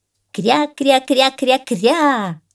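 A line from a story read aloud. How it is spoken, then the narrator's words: Shouting echo. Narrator (Russian): закричало эхо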